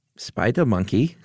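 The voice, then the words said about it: Put-on German accent. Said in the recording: “you have to say spider monkey in a German accent”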